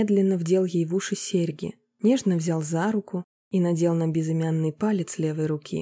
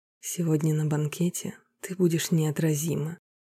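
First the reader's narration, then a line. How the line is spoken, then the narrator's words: Whisper. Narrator (Russian): шепнул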